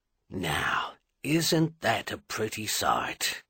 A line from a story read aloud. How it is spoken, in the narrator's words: Edvard Wistan murmured